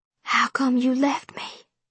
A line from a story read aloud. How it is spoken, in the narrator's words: whispered